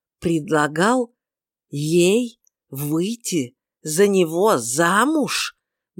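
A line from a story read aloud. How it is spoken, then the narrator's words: Slow deliberate repetition. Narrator (Russian): Медленно, с расстановкой, повторил он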